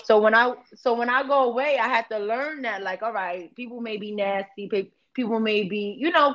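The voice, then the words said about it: New York accent. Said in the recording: “I got this New York accent. Everybody think we got an accent”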